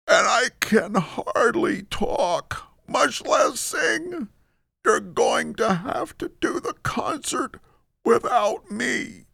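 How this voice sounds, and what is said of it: Weak squeaky voice. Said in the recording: “I got a very bad cold, ... squeaked Fred in a weak voice.”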